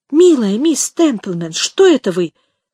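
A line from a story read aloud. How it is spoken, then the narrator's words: Exclaiming. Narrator (Russian): воскликнула ее компаньонка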